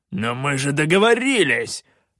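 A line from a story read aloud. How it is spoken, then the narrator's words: Barked. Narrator (Russian): рявкнул Калаан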